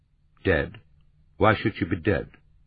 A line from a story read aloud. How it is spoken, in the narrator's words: in his voice the familiar sharpness